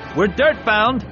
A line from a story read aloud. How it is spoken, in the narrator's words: Rella shouted